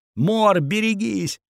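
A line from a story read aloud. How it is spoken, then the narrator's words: Several voices yelling. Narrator (Russian): орали мне сзади разные голоса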